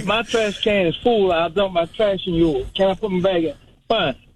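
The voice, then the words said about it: Thick Southern US accent. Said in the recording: “you got a pretty big, thick Southern accent”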